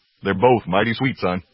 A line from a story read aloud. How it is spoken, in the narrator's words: laughed David